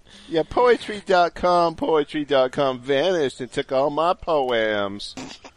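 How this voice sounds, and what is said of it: Texas Southern accent. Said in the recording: “That's a good Texas accent. ... You're a Southern belle.”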